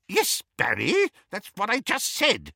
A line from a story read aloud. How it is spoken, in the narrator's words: said Auntie Muriel testily